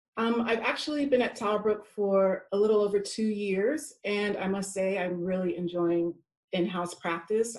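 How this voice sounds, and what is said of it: American accent. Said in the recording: “I'm from America, if you could not tell by my accent.”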